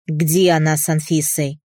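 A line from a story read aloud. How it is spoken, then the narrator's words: Impatient growl. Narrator (Russian): Прорычал, теряя остатки терпения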